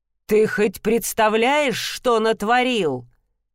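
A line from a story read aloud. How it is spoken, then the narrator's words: Barked. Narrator (Russian): рявкнул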